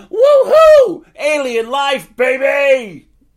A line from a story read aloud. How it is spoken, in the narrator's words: He laughed loudly, hysterically, breathing heavy